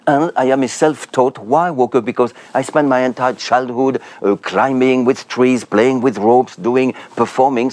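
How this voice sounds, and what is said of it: French accent. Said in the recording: “you got that French accent”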